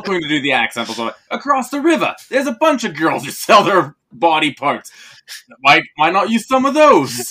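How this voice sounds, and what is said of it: Mock Cockney British accent. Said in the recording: “Your accent there more sounded like an, hello, governor, I'm going to go down to the old chippy ... I went really cockney with that, didn't I? Well, that wasn't good. ... That was not Jersey.”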